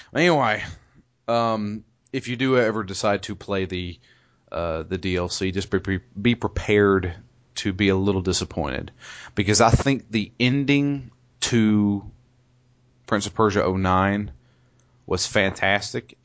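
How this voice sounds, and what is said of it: Southern drawl accent. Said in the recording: “It just sounds like that on the podcast that for some southern drawl. It's that southern drawl.”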